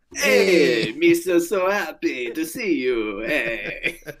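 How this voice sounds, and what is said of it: Imitates Watto character voice. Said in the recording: “That is literally Watto's voice. That was actually a really good impression.”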